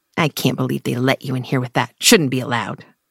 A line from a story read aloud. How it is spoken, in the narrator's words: One woman snapped